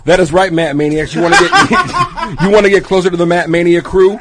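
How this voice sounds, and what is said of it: Exaggerated announcer-style radio voice. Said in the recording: “put on my radio voice ... Can you give us a preview of your radio voice ... In my radio voice.”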